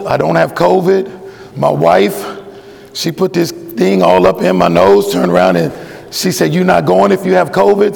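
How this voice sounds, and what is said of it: Voice with a cold. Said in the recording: “I have a bit of a cold.”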